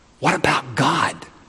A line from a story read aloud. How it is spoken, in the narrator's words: his brother, who was somewhat embarrassed by all these proceedings, whispered to him